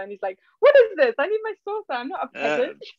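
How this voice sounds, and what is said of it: Exaggerated British accent. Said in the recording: “you've held on to a bit of your British accent. I can hear it in there. ... I kind of was putting it on in that last.”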